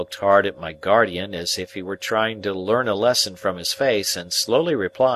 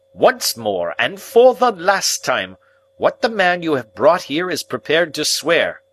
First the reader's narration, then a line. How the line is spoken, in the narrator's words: said my guardian very sternly